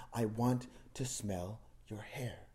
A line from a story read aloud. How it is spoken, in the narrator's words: he whispered to her with his mule breath